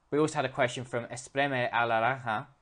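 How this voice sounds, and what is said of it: Poor put-on Spanish accent. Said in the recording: “That's my awful Spanish accent.”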